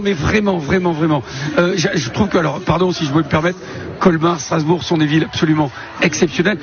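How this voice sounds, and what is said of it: Slight Bordeaux French accent. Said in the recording (French): “Et un petit accent, ça vient d'où exactement? ... De Bordeaux”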